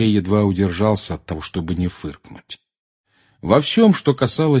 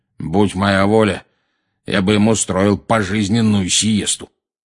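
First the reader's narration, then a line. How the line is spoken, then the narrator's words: Loud grumbling over broadcast. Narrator (Russian): проворчал, заглушив конец фразы диктора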